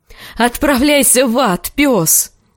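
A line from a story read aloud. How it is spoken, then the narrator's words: Shriek of helpless rage. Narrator (Russian): В бессильной ярости завизжала она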